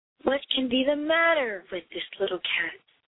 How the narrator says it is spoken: said the lady

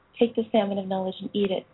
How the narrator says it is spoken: said Finnegas

